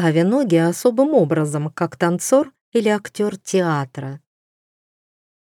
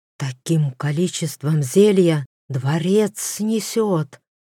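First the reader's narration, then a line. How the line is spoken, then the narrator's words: Whispered. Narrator (Russian): шепнул он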